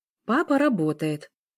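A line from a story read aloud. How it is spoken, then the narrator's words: Calm female reply. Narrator (Russian): спокойно ответила женщина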